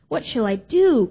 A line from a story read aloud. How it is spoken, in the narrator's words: cried Toad